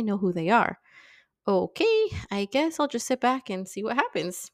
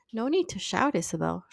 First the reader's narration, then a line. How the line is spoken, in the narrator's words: Shiloh said quietly